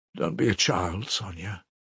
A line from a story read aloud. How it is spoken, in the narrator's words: he said softly